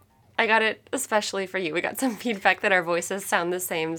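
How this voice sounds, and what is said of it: Sick, congested, husky voice. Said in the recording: “you sound kind of sick. ... I have a cold. ... And now I sound sultry.”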